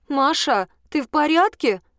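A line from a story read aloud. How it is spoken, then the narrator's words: Uncertain voice. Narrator (Russian): проговорила она неуверенным голосом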